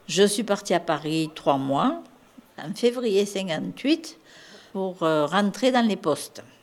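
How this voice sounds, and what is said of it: Marseille southern French accent. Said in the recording (French): “À mon accent, vous voyez que je suis de Marseille.”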